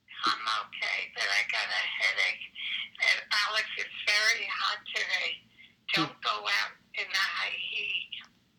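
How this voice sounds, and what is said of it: High, strained falsetto-like voice. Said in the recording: “Why does your voice sound like a Four Seasons?”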